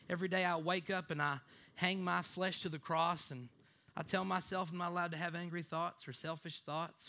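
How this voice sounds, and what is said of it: Made-up religious woman, southern lisp. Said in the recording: “I have a kind of a southern lisp when I do that voice ... that person is that I always make up that's super religious, but whoever she is”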